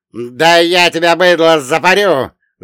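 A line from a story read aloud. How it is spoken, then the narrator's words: Yelling. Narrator (Russian): заорал первый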